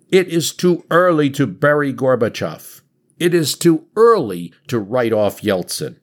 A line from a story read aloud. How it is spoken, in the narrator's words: He shouts out